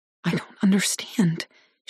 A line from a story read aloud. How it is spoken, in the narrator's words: she whispers